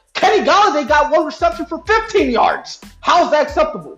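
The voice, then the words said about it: Screaming, angry shouting. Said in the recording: “sorry for screaming”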